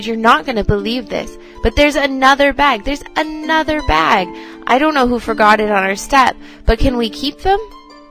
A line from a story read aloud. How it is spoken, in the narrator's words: I cried